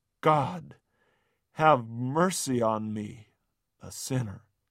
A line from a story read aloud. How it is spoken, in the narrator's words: All he could do was groan